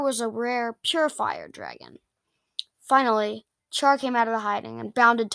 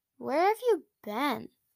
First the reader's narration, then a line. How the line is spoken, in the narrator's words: asked Char